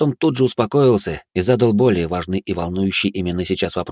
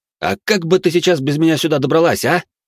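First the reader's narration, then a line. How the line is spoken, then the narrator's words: Indignant question. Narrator (Russian): Также возмущенно спросил я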